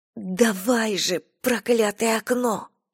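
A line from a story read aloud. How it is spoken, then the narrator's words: Whisper. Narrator (Russian): прошептала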